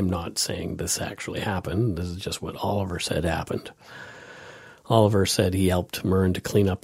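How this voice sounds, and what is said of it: Usual voice. Nothing is said of it.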